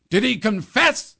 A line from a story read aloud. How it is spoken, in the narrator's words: the Duke roared